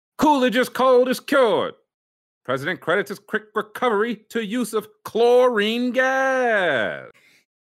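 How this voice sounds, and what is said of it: Newscaster voice. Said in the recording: “do your news voice”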